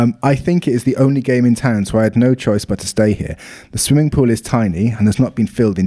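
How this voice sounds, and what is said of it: Usual voice. Nothing is said of it.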